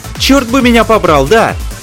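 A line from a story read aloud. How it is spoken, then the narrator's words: Shouted reply. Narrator (Russian): крикнула ему в ответ Нева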